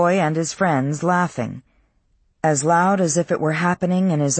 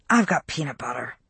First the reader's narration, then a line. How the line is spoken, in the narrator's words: she whispered